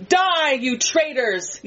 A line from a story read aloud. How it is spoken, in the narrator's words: yells the first man